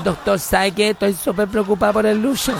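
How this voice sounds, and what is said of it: Voice of a fifty-something woman. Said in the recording (Spanish): “Tengo que poner la voz yo ... Imagínense una señora, cincuentona, 50 años más o menos”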